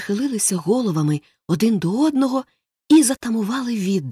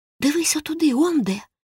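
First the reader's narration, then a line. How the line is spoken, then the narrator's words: Whispered. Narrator (Ukrainian): прошепотів Том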